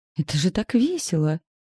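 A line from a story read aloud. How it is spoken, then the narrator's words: Joyful teasing blurt. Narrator (Russian): выпалила радостно и подколола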